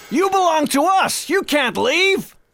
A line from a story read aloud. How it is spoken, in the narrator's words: yelled my former father